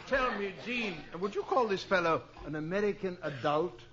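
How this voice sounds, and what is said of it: British accent. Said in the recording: “The bloke's a Britisher.”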